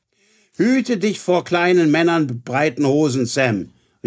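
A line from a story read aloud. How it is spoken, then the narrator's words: Calling out. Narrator (German): rief sie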